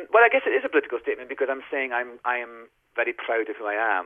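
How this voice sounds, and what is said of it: Scottish accent. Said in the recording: “your own Scottish accent”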